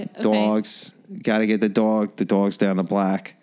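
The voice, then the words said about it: Exaggerated put-on Boston accent. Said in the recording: “we did Boston... Kind of Boston-ish. Yep, a little Boston.”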